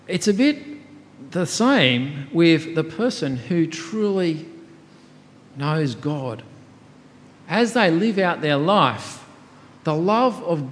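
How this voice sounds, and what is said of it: Australian accent. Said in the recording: “got my accent there ... you're from that country down under ... the accent gives it away ... The accent that had been inbuilt into me from a baby”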